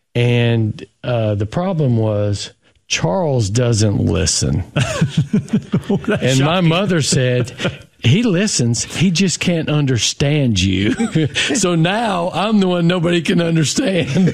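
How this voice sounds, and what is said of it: Thick Tennessee Southern accent. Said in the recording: “having the thickest Tennessee accent I've ever, well, one of the few I've ever heard”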